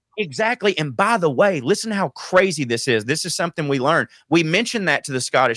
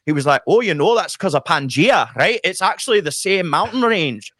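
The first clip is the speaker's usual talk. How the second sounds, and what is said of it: Good put-on Scottish accent. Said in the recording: “That's a really good Scottish accent ... Well done.”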